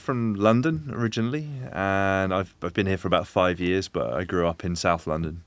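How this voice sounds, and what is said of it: London English accent. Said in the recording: “an accent like that ... Well, it's very good. ... It's very convincing.”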